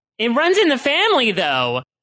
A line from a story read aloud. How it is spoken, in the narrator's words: Sis exclaimed